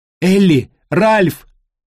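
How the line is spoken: Shouted. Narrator (Russian): крикнула пирожок

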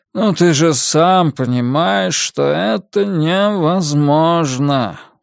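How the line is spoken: Tired. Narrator (Russian): устало произнес Нолин

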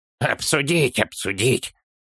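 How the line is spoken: Child grumbling. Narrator (Russian): буркнул малыш

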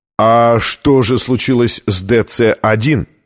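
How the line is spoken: Plain. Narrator (Russian): спросил Лэндон

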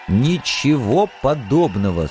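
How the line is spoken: Stern throat-clearing. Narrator (Russian): строго откашлялся я

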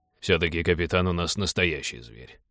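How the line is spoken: Grumbling. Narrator (Russian): проворчал Теодор

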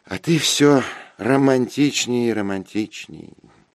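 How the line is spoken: Sighing. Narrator (Russian): вздохнула она

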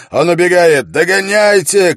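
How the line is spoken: Shouted. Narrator (Russian): крикнул Холт

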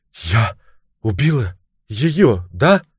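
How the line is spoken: Awestruck horrified whisper. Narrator (Russian): прошептала в благоговейном ужасе

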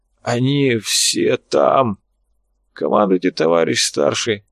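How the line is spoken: Hoarse rasp. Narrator (Russian): Тот прохрипел

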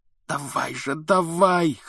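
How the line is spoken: Hoarse. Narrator (Russian): хрипел он

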